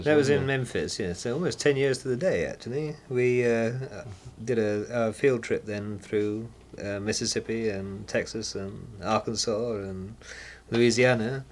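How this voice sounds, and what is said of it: English accent. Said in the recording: “you're English accent”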